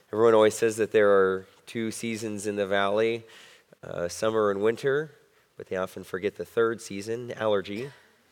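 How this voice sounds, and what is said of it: Slightly hoarse voice. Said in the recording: “forgive my voice. I'm a little hoarse.”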